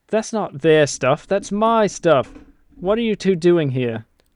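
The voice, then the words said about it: Put-on British accent. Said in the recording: “I should have said that in an accent... Give me an accent... That sounds like an awful lovely British boy.”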